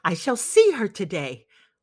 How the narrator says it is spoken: I exclaim with delight

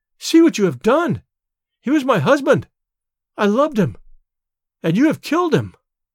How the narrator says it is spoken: she cried

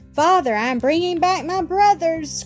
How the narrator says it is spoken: cried Ernest

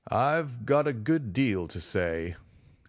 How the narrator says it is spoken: our prisoner said slowly

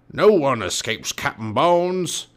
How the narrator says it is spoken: he roared

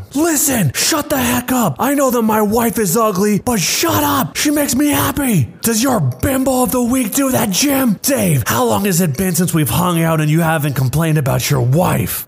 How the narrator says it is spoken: my husband blew up and started shouting

